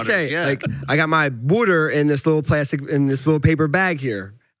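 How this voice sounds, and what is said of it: Philadelphia accent. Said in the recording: “That Philly accent is unique.”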